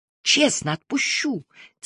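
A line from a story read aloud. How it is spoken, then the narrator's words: Very quiet repetition. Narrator (Russian): тихо-тихо повторила я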